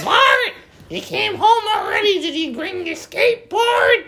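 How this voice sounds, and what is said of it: Imitates a cartoon character's voice. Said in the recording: “Marge Simpson, if you didn't get the impression”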